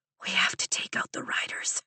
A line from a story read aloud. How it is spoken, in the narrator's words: I whisper